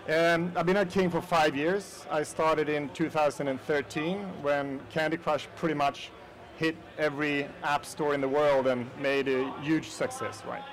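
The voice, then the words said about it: Slight Swedish accent. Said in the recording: “I'm Swedish, so that's my accent, a little bit of Swedish”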